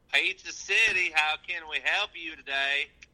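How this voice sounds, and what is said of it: Put-on Southern accent. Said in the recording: “What accent is that? What are you even saying? ... It's my pizza delivery voice, man. ... Have you ever even been to the South?”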